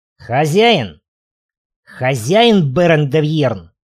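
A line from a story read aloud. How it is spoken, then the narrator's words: Growl. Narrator (Russian): Гудивар зарычал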